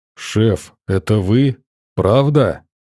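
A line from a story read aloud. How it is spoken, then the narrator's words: Muffled voice. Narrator (Russian): Его голос из-под шкафа звучал глухо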